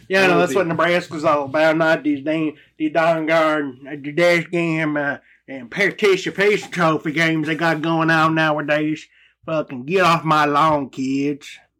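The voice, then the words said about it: Grumpy old person voice, backcountry. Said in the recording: “my old person impression. That was pretty shitty. ... Little backcountry there.”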